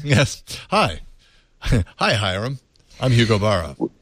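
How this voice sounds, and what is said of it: Good impression of Hugo Barra. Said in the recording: “That's a really good impression, actually.”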